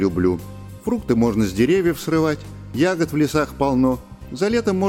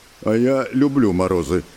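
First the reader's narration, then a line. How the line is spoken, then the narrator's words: Deep bass voice. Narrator (Russian): пробасил он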